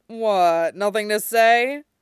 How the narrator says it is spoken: Hawk chuckles

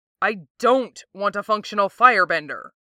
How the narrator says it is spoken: Jet barks, still sounding horrified

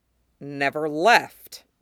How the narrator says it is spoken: Val says tightly

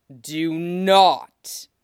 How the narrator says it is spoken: Maul growls

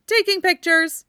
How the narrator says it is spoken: Lance replied cheerfully

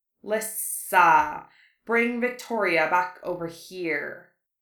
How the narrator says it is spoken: Harry hissed

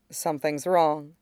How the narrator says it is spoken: she says softly, and her voice wants to shake, but she won't let it

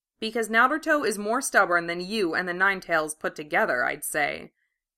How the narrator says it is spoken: answered dryly

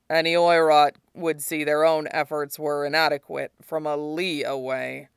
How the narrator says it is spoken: he grumbles

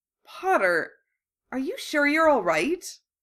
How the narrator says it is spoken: Daphne asked hesitantly

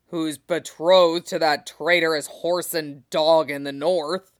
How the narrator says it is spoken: Robert growled

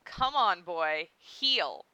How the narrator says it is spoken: commanded

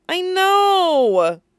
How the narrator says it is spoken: she groaned

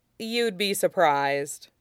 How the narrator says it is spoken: Zuko said dryly

